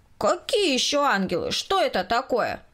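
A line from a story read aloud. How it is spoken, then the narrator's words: Loud question. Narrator (Russian): Громко спросил Коля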